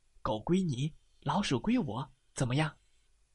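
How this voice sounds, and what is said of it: Quiet, hushed speaking voice. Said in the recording (Chinese): “小声”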